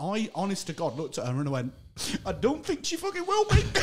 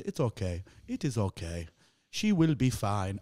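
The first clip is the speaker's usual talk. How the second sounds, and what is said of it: Put-on African accent. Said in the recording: “do an accent. ... This woman, what I presume was African”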